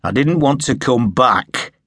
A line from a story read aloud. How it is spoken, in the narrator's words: Sharpe said harshly